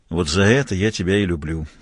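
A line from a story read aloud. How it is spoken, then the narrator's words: Tired. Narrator (Russian): устало сказал Мазур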